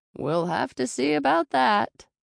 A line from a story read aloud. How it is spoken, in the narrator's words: laughed